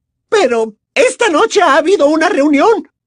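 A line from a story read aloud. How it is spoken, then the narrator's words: Furious shouting. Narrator (Spanish): gritó furiosa la profesora Umbridge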